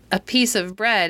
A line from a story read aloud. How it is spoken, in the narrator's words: answered Midas